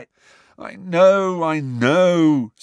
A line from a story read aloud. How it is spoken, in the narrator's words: said Angelina miserably